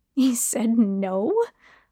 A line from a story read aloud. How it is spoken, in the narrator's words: I laughed